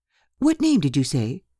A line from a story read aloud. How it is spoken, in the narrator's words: cried Mrs